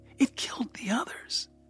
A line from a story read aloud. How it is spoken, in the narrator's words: Lily whispered